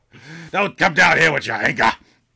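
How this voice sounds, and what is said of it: Over-the-top scene-chewing actor voice. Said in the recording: “he was chewing some scenes ... from the late stage Al Pacino school of acting”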